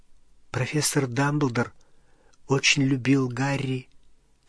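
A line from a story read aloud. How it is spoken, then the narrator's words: Quiet. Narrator (Russian): тихо сказала Гермиона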